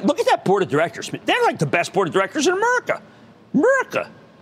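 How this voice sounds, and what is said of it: Strong regional American accent. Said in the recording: “That accent. I hate that accent. I can't get rid of the accent.”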